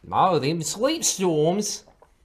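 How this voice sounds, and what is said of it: Character line in a put-on accent. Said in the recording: “We can't afford that accent yet”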